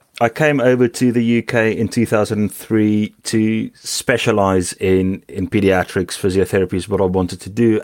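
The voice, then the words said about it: Non-English accent. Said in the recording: “As you can hear, it's not an English accent I've got.”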